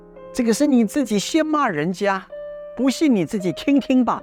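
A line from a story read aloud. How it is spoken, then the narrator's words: Father, laughing. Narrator (Chinese): 父亲就笑着跟他的孩子说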